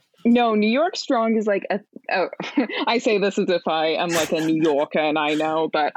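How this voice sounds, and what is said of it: Pretty good put-on New York accent. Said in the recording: “that's a pretty good accent, honestly.”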